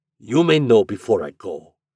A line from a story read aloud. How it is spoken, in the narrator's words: returned the other gruffly